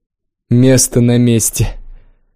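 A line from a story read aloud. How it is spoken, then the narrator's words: Loud guffaw. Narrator (Russian): Кюн захохотал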